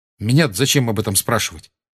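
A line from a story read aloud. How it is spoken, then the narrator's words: Sharp reply. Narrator (Russian): резко ответил Гарри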